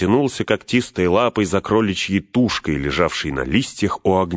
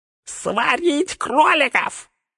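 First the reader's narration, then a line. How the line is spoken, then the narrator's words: Shrill squeal. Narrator (Russian): взвизгнул горлом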